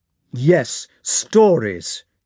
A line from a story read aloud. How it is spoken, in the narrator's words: repeated Rostov loudly, looking with eyes suddenly grown furious